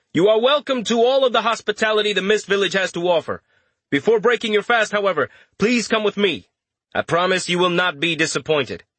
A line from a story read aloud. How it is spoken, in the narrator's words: Richter said, raising his voice